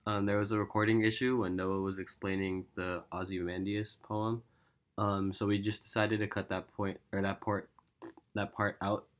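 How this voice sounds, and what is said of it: Sick-sounding voice. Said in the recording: “Pardon my voice, I'm like a little sick right now”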